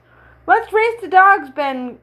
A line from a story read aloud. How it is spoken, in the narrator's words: cried Mike, who would never be still very long